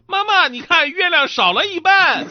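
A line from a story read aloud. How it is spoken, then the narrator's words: Child shouting. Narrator (Chinese): 一个孩子喊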